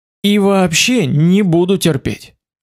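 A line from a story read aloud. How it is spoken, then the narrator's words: Sweet gentle voice. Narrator (Russian): сообщил я с самой любезной улыбкой и проникновенно ласковым голосом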